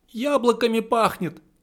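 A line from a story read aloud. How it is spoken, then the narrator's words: Squeaky bleating voice. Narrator (Russian): пропищал я, голосом скорее похожим на блеяние овцы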